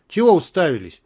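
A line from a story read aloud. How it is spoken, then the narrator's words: Embarrassed shouting. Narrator (Russian): закричал на нас Толик, чтобы мы не заметили его смущения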